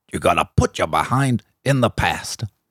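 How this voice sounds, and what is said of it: Imitates another person's voice. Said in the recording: “a bit of an accent? Was that like a bit of an impression? ... A little bit of an impression”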